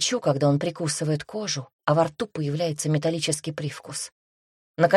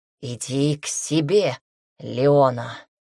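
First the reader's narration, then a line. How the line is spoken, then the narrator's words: Hoarse, repeating. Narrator (Russian): С хрипотцой в голосе повторяет он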